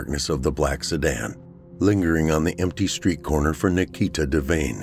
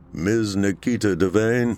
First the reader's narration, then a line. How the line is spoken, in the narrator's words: the driver called out